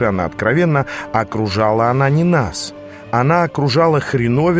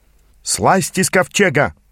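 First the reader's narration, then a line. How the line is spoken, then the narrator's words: Shouted from a crowd. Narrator (Russian): выкрикнул кто-то из толпы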